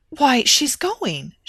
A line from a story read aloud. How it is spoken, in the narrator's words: she gasped